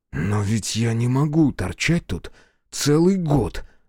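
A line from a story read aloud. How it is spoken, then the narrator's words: Through gritted teeth. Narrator (Russian): сказал сквозь зубы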